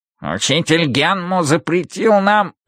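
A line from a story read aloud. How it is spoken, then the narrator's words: Nasal exclamation. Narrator (Russian): восклицает гнусавый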